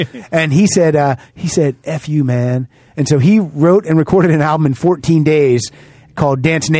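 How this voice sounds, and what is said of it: Usual voice. Nothing is said of it.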